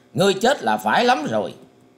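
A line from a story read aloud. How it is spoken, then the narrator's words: Angry shout. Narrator (Vietnamese): Ngũ hoàng tử quát lên rằng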